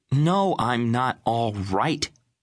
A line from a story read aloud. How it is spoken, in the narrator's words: she snapped, eyes bright with pain